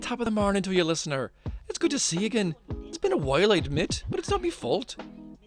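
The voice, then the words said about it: Put-on Irish leprechaun voice. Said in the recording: “This is me leprechaun voice... doing the leprechaun voice”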